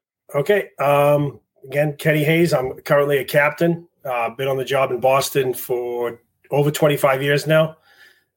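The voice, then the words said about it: Strong regional accent, fast speech. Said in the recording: “if my accent is a little too much, just tell me to slow down ... people pick up on that accent pretty fast ... I do talk a little fast”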